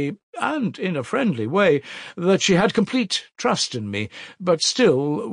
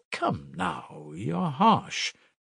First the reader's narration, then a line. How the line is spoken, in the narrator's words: muttered Nikodim Fomitch